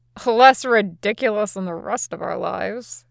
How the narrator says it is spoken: Usopp mutters

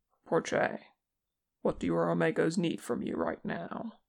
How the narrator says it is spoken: his voice remained calm and confident when he said

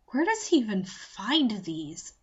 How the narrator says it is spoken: Q muttered

